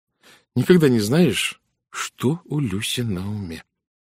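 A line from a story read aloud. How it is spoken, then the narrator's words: Slow speech. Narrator (Russian): медленно сказала Генриетта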